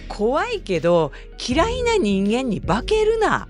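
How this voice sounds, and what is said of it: Retort in put-on Kansai dialect. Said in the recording (Japanese): “関西弁で突っ込んだ”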